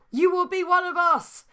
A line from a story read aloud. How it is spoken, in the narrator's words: yelled the zombie ghosts, dead zombie ghosts